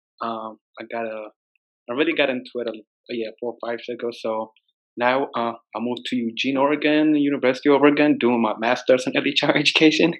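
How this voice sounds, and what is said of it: New York accent. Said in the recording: “New York ... this accent sounds familiar. Like, feel like home.”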